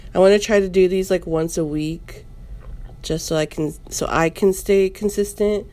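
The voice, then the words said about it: Sick-sounding voice. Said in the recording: “my coughing. If I sound different, I'm still getting over my sickness”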